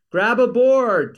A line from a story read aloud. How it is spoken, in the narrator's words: screaming